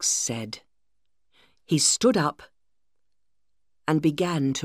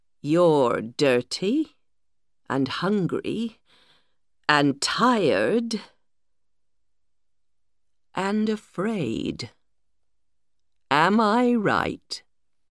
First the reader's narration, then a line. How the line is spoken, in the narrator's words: Alex smiled slowly